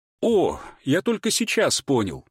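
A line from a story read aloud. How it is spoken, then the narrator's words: Emotional exclamation. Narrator (Russian): воскликнул он, не в силах сдержать эмоции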